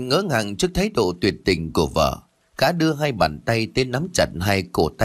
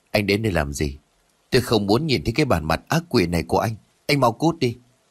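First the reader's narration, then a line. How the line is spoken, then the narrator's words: Trembling voice. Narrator (Vietnamese): Hồng Anh lúc này run rẩy bảo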